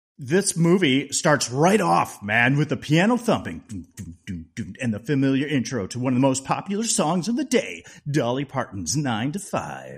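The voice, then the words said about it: Radio DJ announcer voice. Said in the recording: “I'm trying to do my radio DJ voice.”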